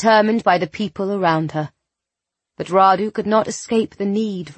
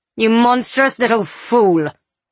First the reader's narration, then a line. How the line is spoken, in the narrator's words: he snarled